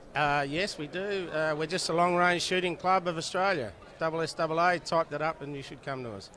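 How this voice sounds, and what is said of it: Australian accent. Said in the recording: “accent of the Australians”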